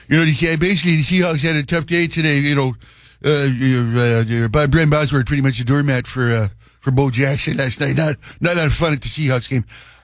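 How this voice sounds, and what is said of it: Imitates another person's voice. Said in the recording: “I did sports as a character. I was Bill Murray from Caddyshack.”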